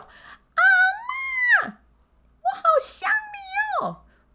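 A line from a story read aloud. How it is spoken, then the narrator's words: Very loud shout. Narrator (Chinese): 喊到那种隔壁邻居都听得到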